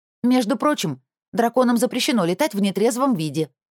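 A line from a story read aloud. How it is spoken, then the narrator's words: Exclaimed. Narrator (Russian): воскликнула я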